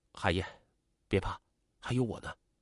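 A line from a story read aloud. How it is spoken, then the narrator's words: Tender soothing voice. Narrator (Chinese): 季杰对王海燕多了几分爱怜，柔声安慰她说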